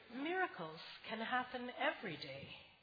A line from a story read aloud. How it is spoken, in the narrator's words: Grandpa said quietly